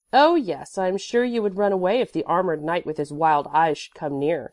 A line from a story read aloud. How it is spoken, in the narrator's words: said Mia